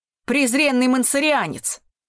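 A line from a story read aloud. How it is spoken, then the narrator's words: Shout. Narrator (Russian): крикнул он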